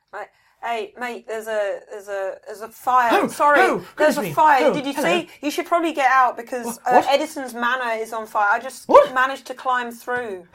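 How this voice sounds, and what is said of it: Put-on Australian accent. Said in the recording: “Somehow sound Australian. I don't know why.”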